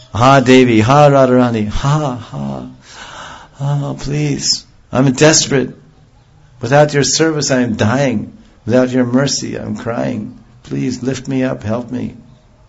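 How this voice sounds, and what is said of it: Choked-up, desperate crying voice. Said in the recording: “his own voice will choke up ... My voice is choking.”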